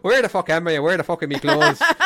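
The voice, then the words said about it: Put-on Irish accent. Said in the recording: “they all tried in their best Irish accent”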